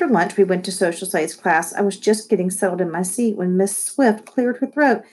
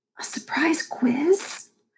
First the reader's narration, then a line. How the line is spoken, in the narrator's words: I whispered to Malcolm